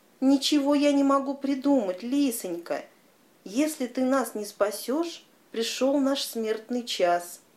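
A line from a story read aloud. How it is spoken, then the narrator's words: Pleading. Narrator (Russian): Взмолился шакал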